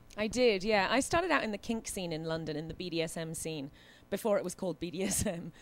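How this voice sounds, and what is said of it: London accent, beautiful and sexy. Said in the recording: “Accent, too. Fetish. ... in London, it had that accent ... It's a beautiful accent. It really does impress ... It's very sexy”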